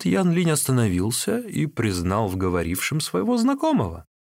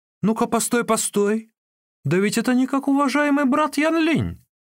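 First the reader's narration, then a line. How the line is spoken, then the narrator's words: Sudden exclamation. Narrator (Russian): тот, кто был впереди, воскликнул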